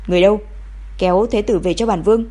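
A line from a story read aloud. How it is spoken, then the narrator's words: Cold shout. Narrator (Vietnamese): Ông lạnh lùng quát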